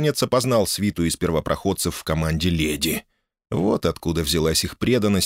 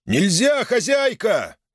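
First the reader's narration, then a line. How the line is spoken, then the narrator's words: Yelling mid-fight. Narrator (Russian): орал попутно атаками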